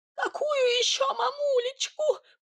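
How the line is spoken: Squeaky. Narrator (Russian): пропищал Сидор

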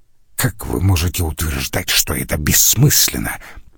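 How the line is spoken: Hiss. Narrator (Russian): прошипел он

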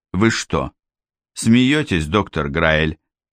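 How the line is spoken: Calm, mocking, superior. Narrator (Russian): сказал Франк спокойно, но с заметной издевкой и чувством превосходства

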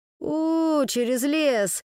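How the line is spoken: Moaning. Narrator (Russian): простонал Фред

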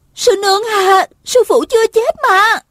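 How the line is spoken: Hurried shout. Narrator (Vietnamese): vội la lên

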